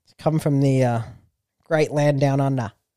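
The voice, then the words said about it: Bad put-on Australian accent. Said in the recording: “That was a really bad accent”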